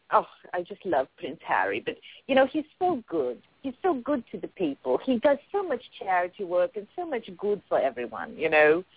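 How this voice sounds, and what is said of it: Wandering put-on accent. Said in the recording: “I don't know where I'm going with this accent.”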